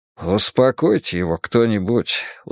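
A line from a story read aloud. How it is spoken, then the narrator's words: Weary. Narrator (Russian): устало произнес Вуко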